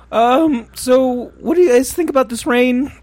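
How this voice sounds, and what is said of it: Imitates Morty cartoon character voice. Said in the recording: “Do that in a Morty voice. ... That's pretty good. It's pretty good.”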